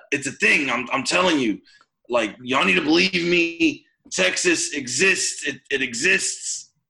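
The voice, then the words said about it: Put-on New York accent. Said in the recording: “Whenever I do a character voice, I go back to the New York accent. ... He has a New York accent.”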